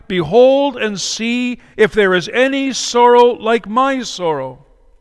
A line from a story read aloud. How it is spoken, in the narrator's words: she called out to those who passed by